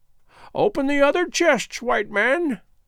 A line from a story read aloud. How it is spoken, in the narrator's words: croaked Gagool